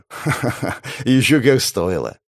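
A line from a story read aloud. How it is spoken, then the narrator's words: Laughing. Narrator (Russian): рассмеялся Ян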